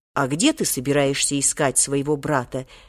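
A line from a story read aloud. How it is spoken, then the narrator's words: Calm businesslike inquiry. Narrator (Russian): деловито осведомился Волька, привыкший уже спокойно относиться ко всяким самым неожиданным предложениям со стороны Хоттабыча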